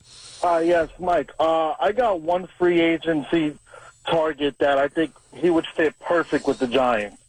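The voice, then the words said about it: New York accent. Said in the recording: “New York accent”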